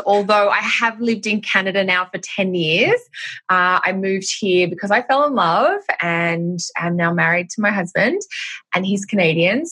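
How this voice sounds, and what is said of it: Australian accent with North American mix. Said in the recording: “I'm Australian, which will be obvious by my accent... I guess I sound like a mashup. When I'm in Australia, I don't sound Australian enough. But when I'm in Canada or the States, I don't sound anything like a North American.”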